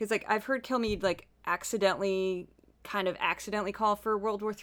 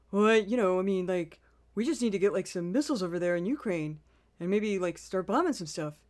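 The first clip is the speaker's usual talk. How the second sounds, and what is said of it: Imitates another person's voice. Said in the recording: “I do have a Kilmeade impression ... my Kilmeade impression”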